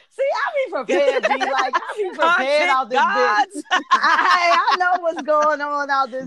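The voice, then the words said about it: Strong Washington DC accent. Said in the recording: “your fucking DC accent is popping today ... She's around another DC ... Other people get stronger”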